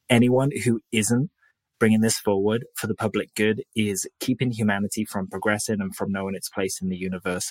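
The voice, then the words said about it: Soft British accent. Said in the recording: “that British accent, that soft British accent, something about that Brit accent”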